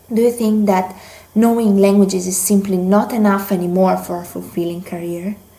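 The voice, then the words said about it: Italian accent in English. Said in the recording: “I absolutely love your accent. I felt, as I was listening to you, I felt like I was in Italy right now”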